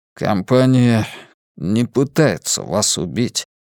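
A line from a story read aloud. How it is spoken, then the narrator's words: Strained, forced words. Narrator (Russian): выдавил из себя я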